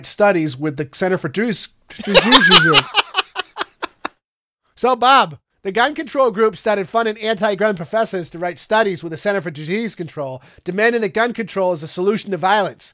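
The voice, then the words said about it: Put-on Midwestern or Maine accent. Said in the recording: “I'm just going to freaking talk like I'm fucking from South Portland the whole time ... you're putting on this fake ass, I have a Midwestern accent”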